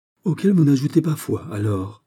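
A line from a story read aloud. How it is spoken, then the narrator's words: Exclaimed. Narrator (French): s'écria la Vallière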